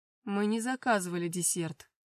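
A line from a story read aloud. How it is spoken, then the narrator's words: Growled. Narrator (Russian): рыкнул мой отец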